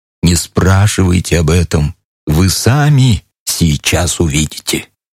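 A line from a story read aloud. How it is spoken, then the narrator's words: Whispered. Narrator (Russian): плацмайор шепнул мне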